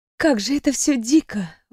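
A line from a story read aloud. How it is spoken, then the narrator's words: Breathed out. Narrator (Russian): выдохнула я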